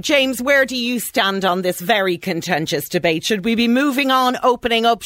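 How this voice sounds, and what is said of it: Soft Irish accent. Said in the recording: “I love your soft Irish accent. It's beautiful.”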